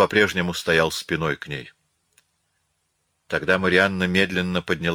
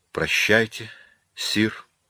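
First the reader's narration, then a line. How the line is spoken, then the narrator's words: Breathed out. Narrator (Russian): выдохнула она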